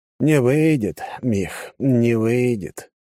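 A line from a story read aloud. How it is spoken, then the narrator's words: Mock sigh. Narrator (Russian): притворно вздохнул Черепанов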